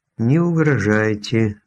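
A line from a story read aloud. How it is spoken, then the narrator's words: Gloomy request. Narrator (Russian): мрачно попросила она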